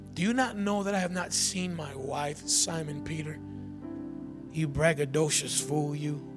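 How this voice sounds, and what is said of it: Sarcastic mocking delivery. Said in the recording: “You know I'm being sarcastic, right?”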